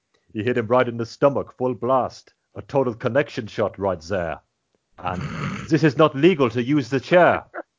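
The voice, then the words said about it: Imitates another person's voice, put-on accent. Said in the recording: “with that cadence ... My accent slipped a bit at the end there. I knew I was overshooting it with the fourth one.”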